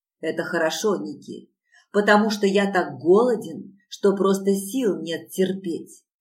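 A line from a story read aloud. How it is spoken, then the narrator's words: Growled. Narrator (Russian): прорычал он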